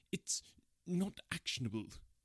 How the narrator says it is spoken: he stammered

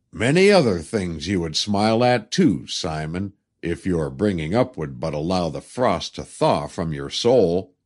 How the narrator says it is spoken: chuckling, to say

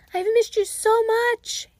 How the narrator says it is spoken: he cried

